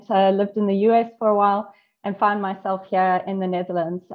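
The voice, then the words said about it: South African accent. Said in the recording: “I'm originally South African, if you can't tell by the accent.”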